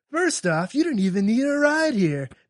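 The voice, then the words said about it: Put-on California accent. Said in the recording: “since he's from California, you should give him the accent to go along with it”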